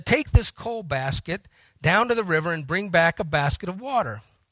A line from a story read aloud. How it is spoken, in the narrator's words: The grandfather quietly turned from putting coal in the stove and said